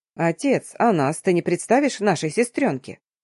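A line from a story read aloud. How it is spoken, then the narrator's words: Young man's snort. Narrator (Russian): хмыкнул мужчина лет 25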